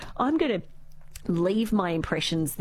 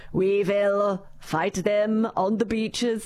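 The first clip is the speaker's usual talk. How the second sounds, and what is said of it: Bad Winston Churchill impression. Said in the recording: “that's probably about the worst Winston Churchill impression you could probably do”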